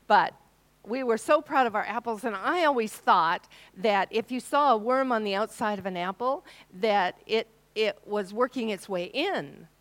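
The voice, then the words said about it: American accent. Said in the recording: “I came from Washington State ... although I do have the accent.”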